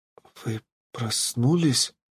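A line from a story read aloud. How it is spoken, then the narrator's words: Whispered question. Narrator (Russian): почему-то шепотом спросила она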